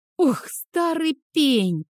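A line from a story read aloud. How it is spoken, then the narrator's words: Hiss. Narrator (Russian): прошипел он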